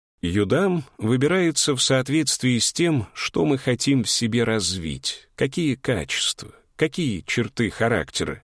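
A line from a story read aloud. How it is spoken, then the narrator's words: Calm sage's answer. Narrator (Russian): спокойно ответил мудрец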